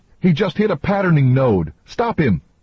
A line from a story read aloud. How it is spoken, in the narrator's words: Catherine cried